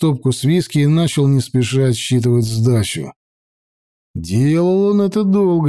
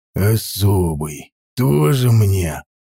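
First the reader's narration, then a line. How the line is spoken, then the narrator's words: Grumbling. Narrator (Russian): проворчал бармен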